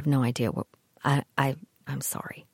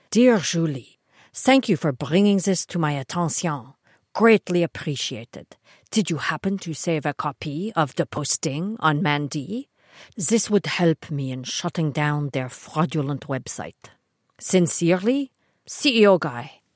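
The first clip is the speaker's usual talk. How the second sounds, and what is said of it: Terrible put-on accent. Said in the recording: “That was a terrible accent. ... I just wanted to give him some character.”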